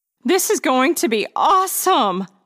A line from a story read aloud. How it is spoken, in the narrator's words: laughed Gabby